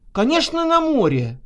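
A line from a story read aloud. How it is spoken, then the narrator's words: Flushed, excited exclamation. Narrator (Russian): воскликнула зарумянившаяся Наташа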